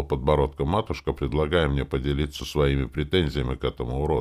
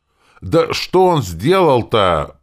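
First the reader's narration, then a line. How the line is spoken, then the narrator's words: Impatient howl. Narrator (Russian): потеряв терпение, взвыл сюзерен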